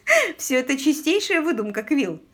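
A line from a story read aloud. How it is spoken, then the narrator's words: Laughing. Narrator (Russian): рассмеялась Полли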